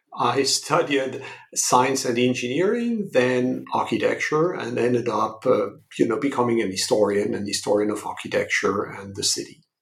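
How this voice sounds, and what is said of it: French accent. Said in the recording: “as you may gather from my accent, I come from Europe, from France”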